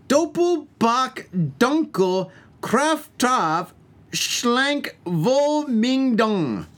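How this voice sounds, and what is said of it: Mock German with bad accent. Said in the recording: “That sounds more Chinese. ... speaking German. I'm speaking German with a really bad accent.”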